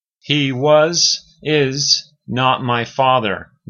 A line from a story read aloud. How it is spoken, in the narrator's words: Livia said